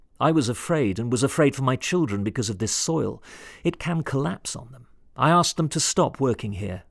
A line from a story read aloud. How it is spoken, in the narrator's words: Rakoton Drasolo said